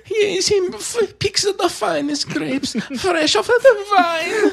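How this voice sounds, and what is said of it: Silly put-on Italian accent. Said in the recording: “our silly Italian accents”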